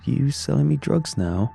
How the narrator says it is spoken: Jason laughed

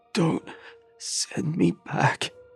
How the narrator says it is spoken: he whimpered

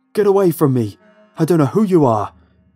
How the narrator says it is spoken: he yelled, firing into the air in all directions frantically

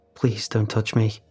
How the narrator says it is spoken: she says quickly

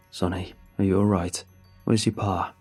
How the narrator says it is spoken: he asked in his tired voice

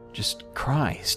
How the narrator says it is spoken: I sighed

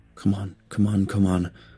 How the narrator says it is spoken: I whispered

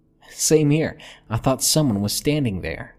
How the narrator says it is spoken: she laughed

